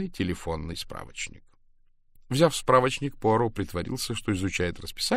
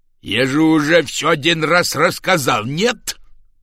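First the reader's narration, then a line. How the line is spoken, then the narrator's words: Growled. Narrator (Russian): прорычал мистер Риддл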